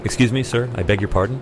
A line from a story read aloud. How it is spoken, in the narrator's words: he said